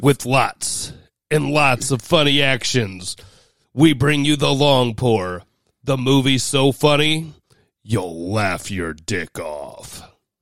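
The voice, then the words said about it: Movie trailer announcer voice. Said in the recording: “That is an excellent trailer voice.”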